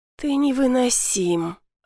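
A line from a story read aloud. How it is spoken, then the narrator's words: Groaning. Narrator (Russian): Алена застонала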